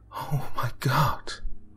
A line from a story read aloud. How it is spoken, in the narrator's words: Rebecca gasped